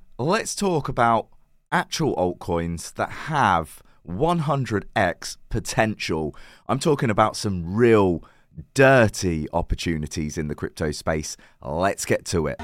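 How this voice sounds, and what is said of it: Croaky, partly lost voice. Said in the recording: “my voice is a little bit different today ... I seem to have lost my voice. I've got it back a little bit today, but I'm still very, very croaky.”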